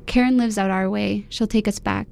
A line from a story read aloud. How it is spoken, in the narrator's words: my dad says